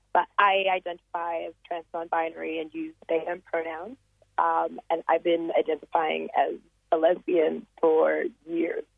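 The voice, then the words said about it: Slight American international accent. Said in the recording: “the little American international accent”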